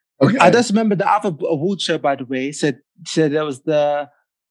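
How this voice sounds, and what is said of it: Put-on American accent. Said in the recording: “for the next 60 seconds, you have to use your best American accent.”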